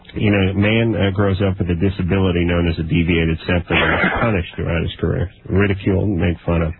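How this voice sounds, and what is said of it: Nasal-sounding voice. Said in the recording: “your voice sounds more nasally on the telephone than it does in my car”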